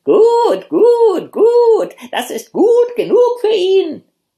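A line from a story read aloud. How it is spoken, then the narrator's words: Deafening hen screeching. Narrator (German): die Hühner liefen ihm nach und schrien so, dass die Ohren ihm beinahe abgefallen wären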